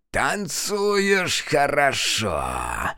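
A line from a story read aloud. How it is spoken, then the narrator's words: Wounded hoarse wheeze. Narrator (Russian): прохрипела химера, зажимая раны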